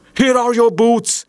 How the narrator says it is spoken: she cried

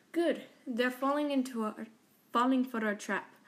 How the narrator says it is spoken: Raquel said in a very Russian accent

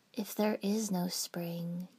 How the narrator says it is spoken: said, softly

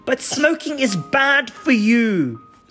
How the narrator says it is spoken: Betty exclaimed

